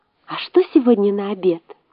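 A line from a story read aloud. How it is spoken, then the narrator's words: Girl whispering. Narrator (Russian): послушная девочка, шепнула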